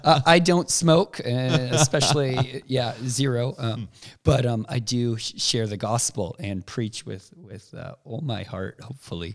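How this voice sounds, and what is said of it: Hoarse, strained voice. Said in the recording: “a little shout out, I guess, to just the reality of where my voice is at right now ... my voice is shot right now ... We were shouting for the kingdom for the last 5 days or so, 6 days.”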